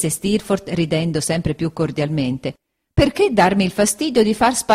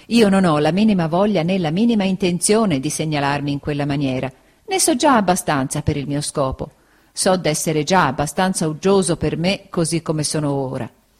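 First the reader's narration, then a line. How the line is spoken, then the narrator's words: Laughing. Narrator (Italian): disse Steerforth ridendo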